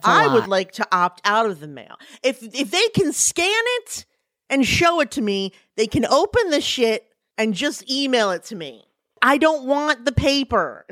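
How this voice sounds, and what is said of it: Yelling, ranting loudly. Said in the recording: “I'm yelling”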